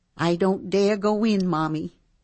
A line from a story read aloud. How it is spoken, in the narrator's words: she said, and her voice was trembling